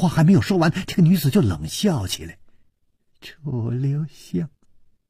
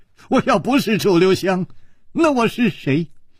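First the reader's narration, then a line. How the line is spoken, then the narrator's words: Wry smile. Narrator (Chinese): 楚留香苦笑着说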